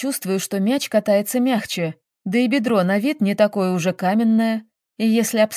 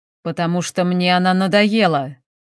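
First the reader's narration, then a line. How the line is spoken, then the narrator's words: Angry, through clenched teeth. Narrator (Russian): зло говорит сквозь стиснутые зубы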